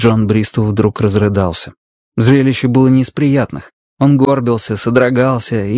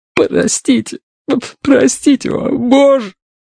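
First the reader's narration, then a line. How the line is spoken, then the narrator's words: Breathless sobbing. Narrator (Russian): Он задыхался, всхлипывал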